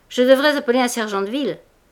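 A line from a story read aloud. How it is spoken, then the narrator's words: Shouting over crowd. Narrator (French): criait-il au milieu des autres vendeurs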